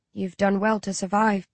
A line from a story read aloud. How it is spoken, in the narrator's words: Jacob says softly